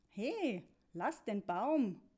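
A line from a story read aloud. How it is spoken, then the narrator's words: Child calling out. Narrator (German): rief ein Kind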